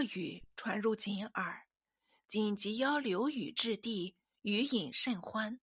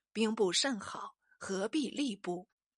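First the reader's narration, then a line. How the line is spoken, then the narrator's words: Sighing to himself. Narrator (Chinese): 禹常自叹道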